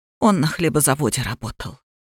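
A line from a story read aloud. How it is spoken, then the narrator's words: Quiet answer. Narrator (Russian): тихо ответила Алиса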